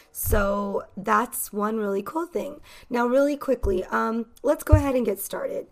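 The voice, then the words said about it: American Valley accent, neutral. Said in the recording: “my accent is from, it is from Los Angeles, more specifically the Valley. So I have a Valley accent ... my accent, which is quite neutral and easy to understand for most people”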